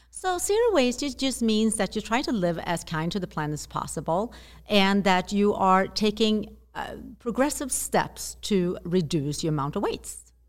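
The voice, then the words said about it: Slight Swedish accent. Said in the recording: “you'll hear a little accent, which is beautiful. ... you're from Sweden”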